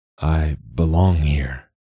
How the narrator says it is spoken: his voice like leaves rustling

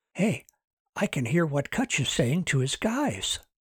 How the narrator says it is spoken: whispered

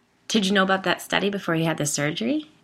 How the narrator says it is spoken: I asked

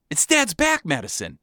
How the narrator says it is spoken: she exclaimed

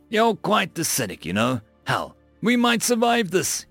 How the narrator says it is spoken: chuckled

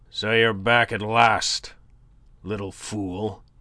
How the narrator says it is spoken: he growled in greeting

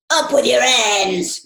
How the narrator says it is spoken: yelled a savage voice

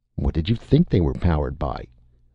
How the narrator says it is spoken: Martin asked coldly

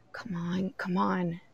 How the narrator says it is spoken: she whispered

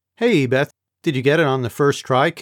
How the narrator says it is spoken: Kim asked

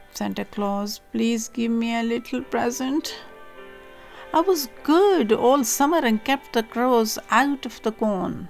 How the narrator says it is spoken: pleaded the poor scarecrow in his choking voice

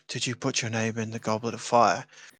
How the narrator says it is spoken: he like whispers to Harry

